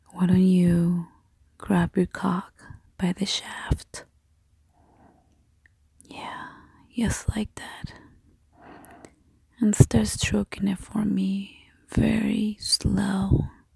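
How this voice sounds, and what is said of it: Accented voice, rolling tongue. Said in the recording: “listen to my voice... the way my tongue rolls... With this accent of mine... with this nutty voice”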